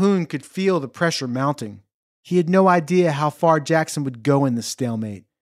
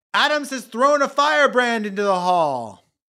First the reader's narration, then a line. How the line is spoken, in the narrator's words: One congressman interrupted, shouting